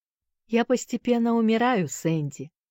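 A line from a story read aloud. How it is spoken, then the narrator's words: Calm. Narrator (Russian): спокойно отвечал тот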